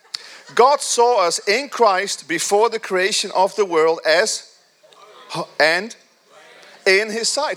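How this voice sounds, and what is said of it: Speaks with a foreign accent. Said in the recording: “I still have an accent, don't I? ... my accent is still there”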